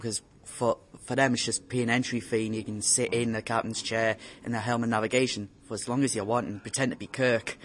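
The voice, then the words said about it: Slight northeastern English accent. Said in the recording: “I detect a slight northeastern accent. ... Are you possibly from Newcastle area?”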